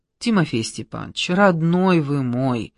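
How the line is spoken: Weary plea. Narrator (Russian): устало попросила Маргарита Тихоновна

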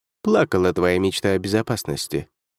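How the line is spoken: Dry remark. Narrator (Russian): сухо заметил Ник

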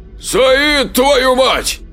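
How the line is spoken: Shouting. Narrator (Russian): кричал Леонардо

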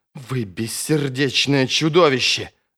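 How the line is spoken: Hissing. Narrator (Russian): зашипела она

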